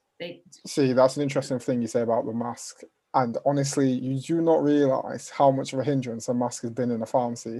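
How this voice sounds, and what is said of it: Northern English accent. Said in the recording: “the accent ... I'm from Huddersfield, Northern.”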